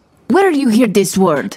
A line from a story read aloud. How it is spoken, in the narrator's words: Bria laughs